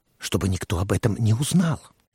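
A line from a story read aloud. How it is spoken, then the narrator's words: Whisper. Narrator (Russian): прошептал Уэсли Моуч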